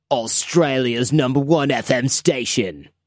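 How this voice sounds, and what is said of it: Put-on Australian radio announcer voice. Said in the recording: “I can imagine what an Australian radio guy sounds like. He's probably like ... they have that cool accent, but then you add the radio guy thing to it ... That's pretty shitty”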